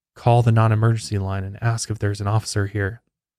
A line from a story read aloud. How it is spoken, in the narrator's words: he whispered